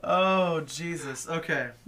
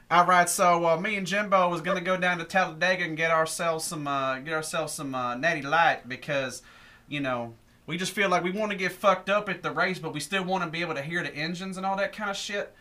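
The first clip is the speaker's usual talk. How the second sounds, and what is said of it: Put-on redneck Southern accent. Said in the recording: “Redneck accent ... That's his real accent.”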